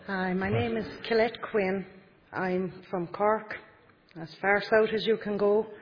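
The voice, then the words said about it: Accent different from the others. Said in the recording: “she hasn't got the same accent as everybody else”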